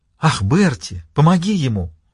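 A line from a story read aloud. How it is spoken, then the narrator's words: Delighted exclamation. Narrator (Russian): восторженно воскликнула Джейн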